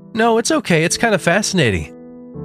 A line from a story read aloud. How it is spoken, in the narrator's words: said with a slight laugh